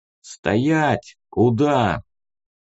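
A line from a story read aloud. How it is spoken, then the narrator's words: Plain. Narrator (Russian): спросил он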